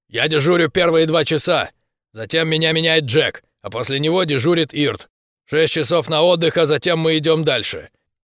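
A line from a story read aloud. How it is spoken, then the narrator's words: Man's bark. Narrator (Russian): дядя рявкнул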